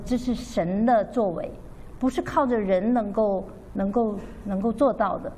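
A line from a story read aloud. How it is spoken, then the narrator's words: Amazed son. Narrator (Chinese): 他的儿子就很惊叹，说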